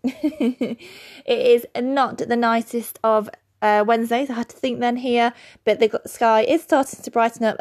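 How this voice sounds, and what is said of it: British English accent. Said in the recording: “Birmingham, UK, not Alabama, as you might be able to tell from my accent. Not that I have a Birmingham accent”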